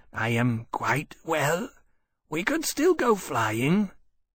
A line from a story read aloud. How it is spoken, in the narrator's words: Temeraire croaked out